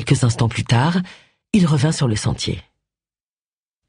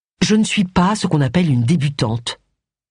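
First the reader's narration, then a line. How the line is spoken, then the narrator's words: Reproachful remark. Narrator (French): fit remarquer Agatha d'un ton de reproche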